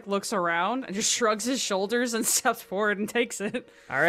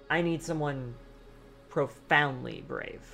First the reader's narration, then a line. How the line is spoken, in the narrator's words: With a tinge of desperation in her voice, she firmly states